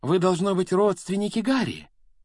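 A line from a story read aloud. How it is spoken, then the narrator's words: Exclamation. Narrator (Russian): воскликнула миссис Уизли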